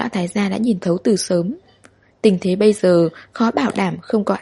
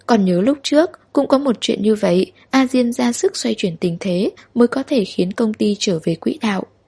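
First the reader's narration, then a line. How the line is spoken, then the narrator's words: Slight smile. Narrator (Vietnamese): Trung mẫu hơi mỉm cười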